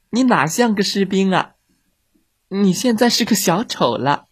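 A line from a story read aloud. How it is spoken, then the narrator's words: Laughing. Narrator (Chinese): 特兰娜笑了起来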